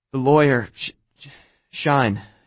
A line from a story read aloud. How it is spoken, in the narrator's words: she was trying to catch her breath between sobs